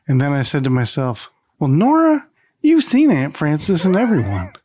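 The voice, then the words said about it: Put-on Southern American accent. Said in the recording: “I like how ... gets a southern accent ... It just sounded like you were giving a southern accent.”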